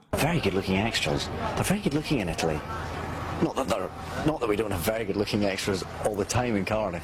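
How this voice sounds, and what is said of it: Scottish accent. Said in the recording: “The sexiest accent in the world is Scottish ... This is the owner of the sexiest accent in the world.”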